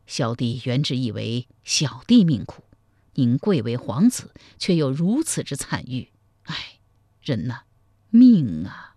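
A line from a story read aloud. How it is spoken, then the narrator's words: Deep sigh. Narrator (Chinese): 赵匡胤喟然长叹道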